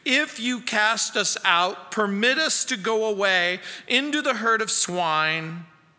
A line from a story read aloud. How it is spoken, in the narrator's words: the demons begged him, saying